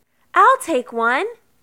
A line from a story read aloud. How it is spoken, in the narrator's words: called out